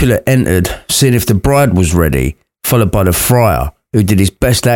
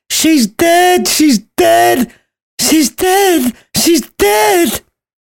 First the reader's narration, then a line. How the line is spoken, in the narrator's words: Lady Capulet was distraught and joined in the nurse's wailing chorus